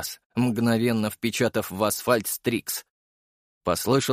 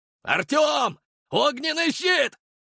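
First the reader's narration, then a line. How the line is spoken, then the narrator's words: Yelling urgently. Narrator (Russian): заорал Серый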